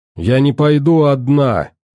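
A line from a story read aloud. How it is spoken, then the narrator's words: Loud. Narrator (Russian): громко сказала Алиса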